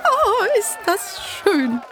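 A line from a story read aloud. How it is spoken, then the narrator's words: Laughing call. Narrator (German): rief Clara lachend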